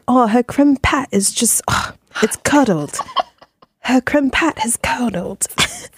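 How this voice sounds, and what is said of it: Put-on British accent. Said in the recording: “It makes me think in a British accent.”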